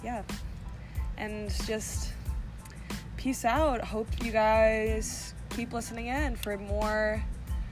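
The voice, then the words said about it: Put-on British accent. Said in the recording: “a British accent? ... I'm trying to appeal to my British audience.”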